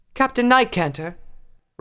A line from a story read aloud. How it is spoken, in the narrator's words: Rarity called out